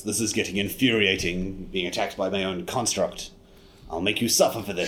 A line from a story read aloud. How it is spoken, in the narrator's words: growls